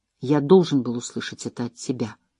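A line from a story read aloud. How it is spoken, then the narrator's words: Whisper. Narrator (Russian): прошептал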